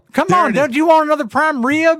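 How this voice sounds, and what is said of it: Put-on Texas accent. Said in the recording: “Do a Texas accent.”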